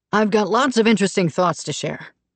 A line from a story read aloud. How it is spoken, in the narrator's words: he said cheerfully